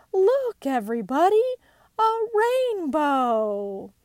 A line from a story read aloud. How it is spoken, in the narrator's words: Suddenly, Pooh cried